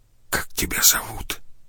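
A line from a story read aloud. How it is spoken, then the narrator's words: Whispering neighbor. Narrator (Russian): прошептал сосед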